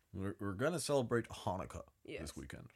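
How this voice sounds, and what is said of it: Put-on American accent. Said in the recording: “in an American accent, it's like Hanukkah.”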